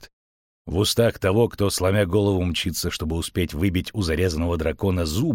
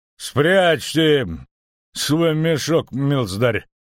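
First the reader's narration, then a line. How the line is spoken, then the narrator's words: Menacing. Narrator (Russian): грозно произнес будущий сотник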